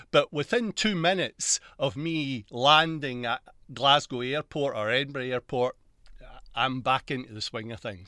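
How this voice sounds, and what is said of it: Strong Glaswegian Scottish accent. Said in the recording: “I come from Glasgow, which is the west coast, which is a very granular accent.”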